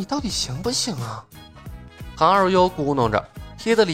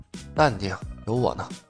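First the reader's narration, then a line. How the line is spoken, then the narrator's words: Low, weary voice. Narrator (Chinese): 李牧是无力吐槽，也压低了声音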